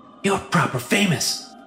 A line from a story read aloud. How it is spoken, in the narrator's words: whispered the stagehand